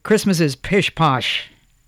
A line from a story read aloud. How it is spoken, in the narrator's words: said Jonathan gruffly